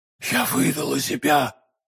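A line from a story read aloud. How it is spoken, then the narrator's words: Whispered. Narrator (Russian): прошептала миледи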